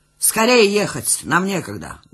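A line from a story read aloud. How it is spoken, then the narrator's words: Loud command. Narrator (Russian): громко скомандовал один из них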